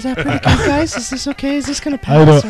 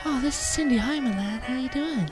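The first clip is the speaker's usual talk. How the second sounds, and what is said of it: Man putting on a girl's voice. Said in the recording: “doing the girl voice ... I say we go with the girl voice ... Girl voice”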